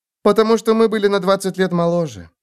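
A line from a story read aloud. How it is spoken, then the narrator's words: Sighed. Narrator (Russian): вздохнула Ульрика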